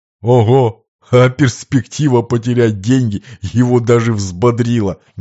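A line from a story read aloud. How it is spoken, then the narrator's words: Bursting out laughing. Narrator (Russian): Не выдержав, рассмеялся Лакранука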